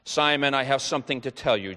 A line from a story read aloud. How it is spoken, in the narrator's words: Jesus said